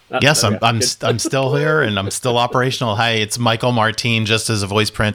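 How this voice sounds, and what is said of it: American accent. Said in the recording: “I'm the other American accent you'll be hearing today”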